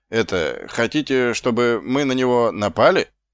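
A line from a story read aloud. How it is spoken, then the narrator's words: Unhappy question. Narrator (Russian): несчастным голосом спросил тот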